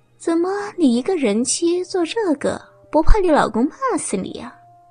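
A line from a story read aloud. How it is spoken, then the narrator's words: Laughing. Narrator (Chinese): 雷嫂笑着说道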